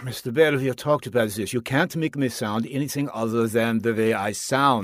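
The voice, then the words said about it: German-accented psychiatrist voice. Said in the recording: “The stereotypical psychiatrist with a German accent ... I'm from Austria”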